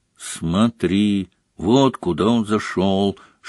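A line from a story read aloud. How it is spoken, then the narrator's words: Whispering into ear. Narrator (Russian): шепнула она на ухо Гарри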